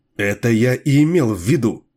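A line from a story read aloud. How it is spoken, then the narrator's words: Heated exclamation. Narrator (Russian): горячо воскликнул Бихел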